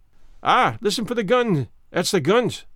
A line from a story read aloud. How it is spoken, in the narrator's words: cried Archie